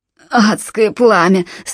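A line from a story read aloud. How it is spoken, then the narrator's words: Groaning. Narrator (Russian): стонал Джалабин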